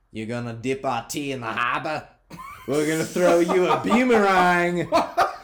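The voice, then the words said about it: Put-on Australian accent. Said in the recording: “That's the only accent he's got ... that's also Australian”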